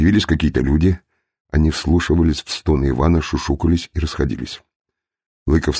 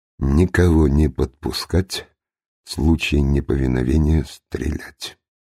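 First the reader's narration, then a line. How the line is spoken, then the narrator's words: Almost calm command. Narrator (Russian): Почти спокойным голосом надворный советник приказал ему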